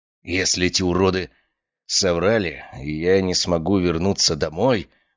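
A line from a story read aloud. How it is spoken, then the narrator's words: Growl. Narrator (Russian): прорычал я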